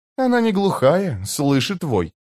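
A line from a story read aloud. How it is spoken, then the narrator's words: Mutter. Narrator (Russian): пробормотала Килава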